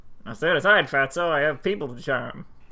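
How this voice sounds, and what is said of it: Comic old-time character voice. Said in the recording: “the canonical, now and forever, Being Jim Davis Nurmal voice ... a little bit of a James Cagney kind of ... more for like a Groucho Marx ... almost a W.C. Fields”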